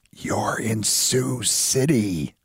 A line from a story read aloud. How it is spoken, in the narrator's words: the guy whispering